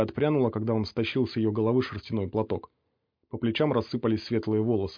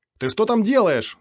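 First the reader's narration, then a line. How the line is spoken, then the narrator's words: Yelling. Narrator (Russian): завопил химик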